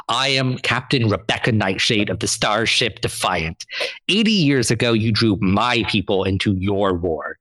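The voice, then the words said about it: Firm, commanding old woman's voice. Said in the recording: “she said in a firm voice”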